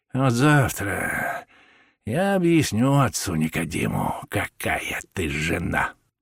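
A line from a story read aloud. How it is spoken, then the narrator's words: Muttering. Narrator (Russian): пробормотал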